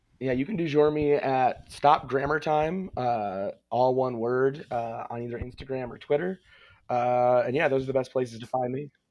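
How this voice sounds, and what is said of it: Damaged, strained voice. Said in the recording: “my voice is ruined by my baseboard heat”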